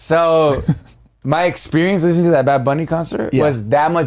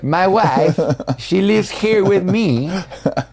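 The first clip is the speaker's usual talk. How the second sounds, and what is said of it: Poor Borat-like accent. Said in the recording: “like really very Borat-y ... That was not a good impression ... That was pretty bad.”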